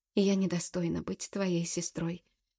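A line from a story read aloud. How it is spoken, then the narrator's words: Broken voice. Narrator (Russian): надломленным голосом произносит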